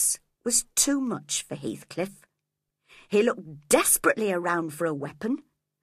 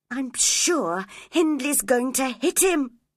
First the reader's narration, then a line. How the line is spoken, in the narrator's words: cried Catherine